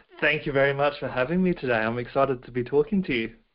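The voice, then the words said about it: Accent from far away. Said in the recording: “you can tell by my accent I'm coming from the other side of the world”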